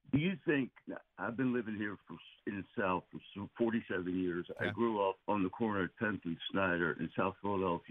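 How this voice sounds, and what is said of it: Distinctive South Philly accent, slower drawl. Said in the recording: “You got a very distinctive voice and draw... It's not Southern. I mean, I think you might talk slower because you're in the South, but otherwise, I wouldn't say it's got a Southern sound... you're South Philly all the way”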